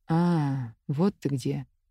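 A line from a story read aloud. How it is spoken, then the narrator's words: Quiet. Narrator (Russian): сказал тихо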